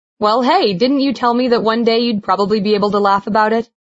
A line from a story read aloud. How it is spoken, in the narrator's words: She laughed again